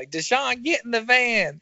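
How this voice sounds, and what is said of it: Old woman's mom voice. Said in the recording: “this old woman, this like mom voice”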